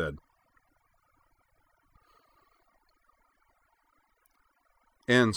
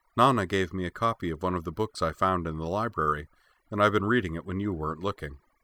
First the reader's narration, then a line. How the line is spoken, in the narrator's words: she said